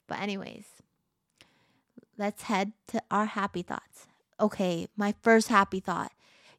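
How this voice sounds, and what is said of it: Unusual early-morning voice. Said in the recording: “my voice sounds weird. It's early in the morning. ... So my voice has just not been the normal”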